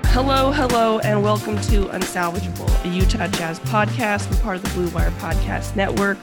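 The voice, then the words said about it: Congested, sick-sounding voice. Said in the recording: “I feel like I sound like I'm sick ... You do sound a little congested”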